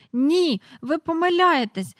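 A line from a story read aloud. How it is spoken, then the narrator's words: Desperate cry. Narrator (Ukrainian): розпачливо скрикнула Джейн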